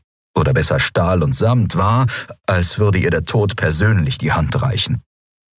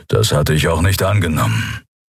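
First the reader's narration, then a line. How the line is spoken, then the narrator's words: Growl. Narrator (German): knurrte der Skria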